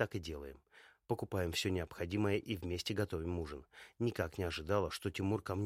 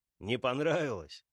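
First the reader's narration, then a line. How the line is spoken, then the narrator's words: Asking through laughter. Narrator (Russian): спрашивает меня сквозь смех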